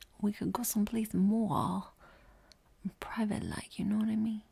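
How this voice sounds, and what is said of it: Accent shifting between many dialects. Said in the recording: “my accent shifted to like 14 different dialects in the span of one sentence”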